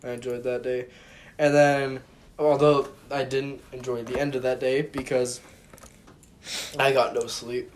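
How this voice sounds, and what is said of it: Strained, failing hoarse voice. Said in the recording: “my voice is dying.”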